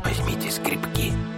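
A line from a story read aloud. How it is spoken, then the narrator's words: Whispered. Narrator (Russian): шепнул он детям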